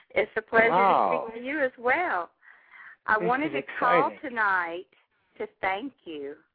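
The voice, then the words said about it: Southern American accent. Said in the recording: “You still have that Southern accent.”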